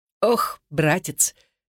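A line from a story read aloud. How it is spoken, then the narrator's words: Chuckling. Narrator (Russian): Чарли хохотнул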